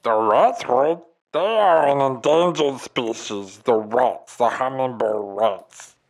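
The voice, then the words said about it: Unusual put-on alien accent. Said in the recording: “you just have a pretty particular accent that I'm just not used to in Earth speak”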